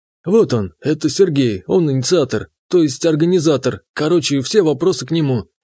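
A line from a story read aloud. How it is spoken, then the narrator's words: Snuffling, strained voice. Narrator (Russian): Андрей Борисович внезапно покраснел, засопел и сдавленным голосом сказал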